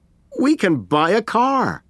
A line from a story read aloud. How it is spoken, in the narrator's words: laughed Aziz